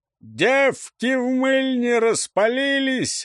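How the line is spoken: Yelling a bawdy song. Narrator (Russian): орал Хвойка непотребную песню

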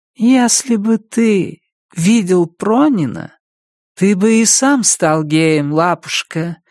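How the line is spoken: Purring. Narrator (Russian): промурлыкала Домбровская

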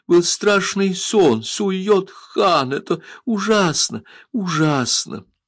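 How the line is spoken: Voice drowned by sobs. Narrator (Russian): Взрыв рыданий заглушил ее голос

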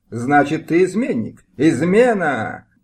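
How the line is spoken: Yelling. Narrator (Russian): завопил пан Мыльский

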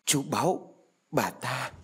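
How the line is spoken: No. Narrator (Vietnamese): Thủy và Thông há hốc miệng, đồng thời run rẩy tay chỉ

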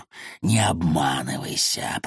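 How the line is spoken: Serpent's hiss. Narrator (Russian): прошипел змей

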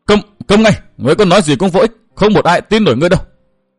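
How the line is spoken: Loud youthful shout. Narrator (Vietnamese): Thiếu niên hét lớn

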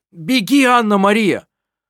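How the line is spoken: Shout. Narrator (Russian): крикнул он

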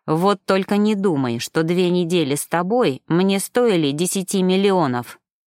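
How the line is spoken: Angry blurt. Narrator (Russian): злобно выпалил он

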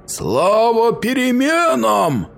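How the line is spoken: Three monstrous voices howling. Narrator (Russian): взвыли три голоса монстра

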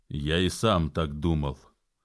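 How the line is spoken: Cold and bitter. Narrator (Russian): холодно и даже с горечью заметил Джон

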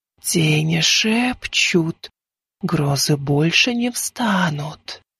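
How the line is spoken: Rustling night whisper. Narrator (Russian): прошелестел шепот в ночи

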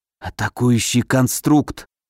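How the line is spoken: Dry-lipped whisper. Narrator (Russian): прошептал пересохшими губами

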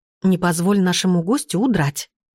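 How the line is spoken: Whispered. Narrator (Russian): шепотом сказала я

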